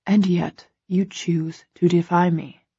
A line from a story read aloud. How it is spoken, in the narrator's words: he murmurs, baffled